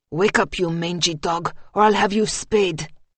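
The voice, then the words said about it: Hissed French-accented character voice. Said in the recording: “hissed, his French accent pronounced”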